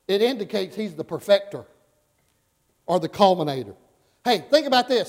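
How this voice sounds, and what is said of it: Alabama Southern accent. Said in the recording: “I have an Alabama accent”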